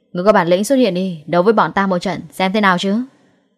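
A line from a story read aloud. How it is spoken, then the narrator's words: Loud challenging voice. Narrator (Vietnamese): Lâm Hiểu Phong lớn tiếng nói tiếp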